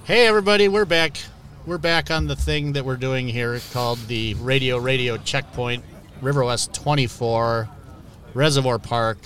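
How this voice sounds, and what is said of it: Radio host voice. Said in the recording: “love your radio voice.”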